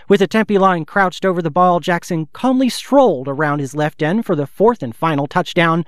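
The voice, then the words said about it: Old-fashioned 1930s announcer accent. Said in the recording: “my attempt at a 1930s accent”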